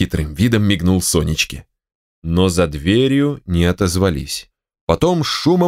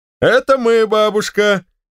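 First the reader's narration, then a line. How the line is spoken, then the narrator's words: Cheerful shout. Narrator (Russian): весело крикнул Алексей Алексеевич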